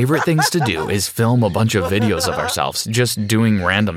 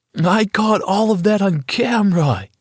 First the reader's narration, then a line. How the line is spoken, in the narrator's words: yelled